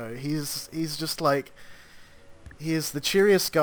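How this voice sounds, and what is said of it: Usual voice. Nothing is said of it.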